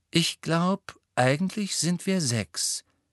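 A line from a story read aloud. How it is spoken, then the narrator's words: Calm. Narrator (German): sagte Luna ruhig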